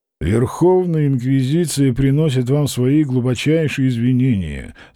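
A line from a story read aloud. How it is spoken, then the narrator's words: Flat official voice. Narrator (Russian): сказал он официальным, бесцветным голосом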